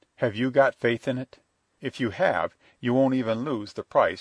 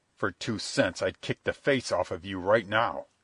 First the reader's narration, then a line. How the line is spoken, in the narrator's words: he snarled